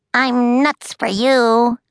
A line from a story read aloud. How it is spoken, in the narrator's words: squeaked a giant chocolate squirrel